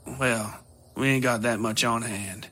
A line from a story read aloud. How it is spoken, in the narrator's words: she said, sighing